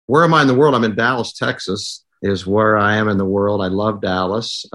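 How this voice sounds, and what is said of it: Noticeable regional accent. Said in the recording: “that wonderful accent that you've got there going”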